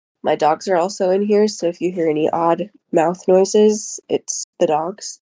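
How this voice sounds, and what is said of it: Congested voice with sniffles. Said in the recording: “I have a little bit of a cold, ... the sniffles”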